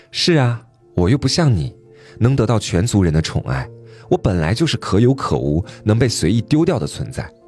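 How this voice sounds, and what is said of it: Scornful, disdainful tone. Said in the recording (Chinese): “用极为不屑的声音说”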